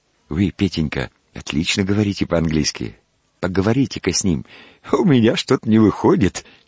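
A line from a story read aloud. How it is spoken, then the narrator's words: Laughing speech. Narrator (Russian): смеясь проговорил доктор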